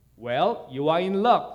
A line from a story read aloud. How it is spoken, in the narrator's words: said the farmer